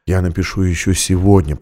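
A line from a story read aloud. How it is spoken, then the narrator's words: Whisper. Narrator (Russian): прошептал он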